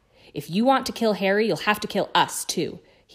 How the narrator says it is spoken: he said fiercely, though the effort of standing upright was draining him of still more color, and he swayed slightly as he spoke

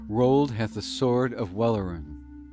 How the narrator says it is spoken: the people cried in amaze to one another

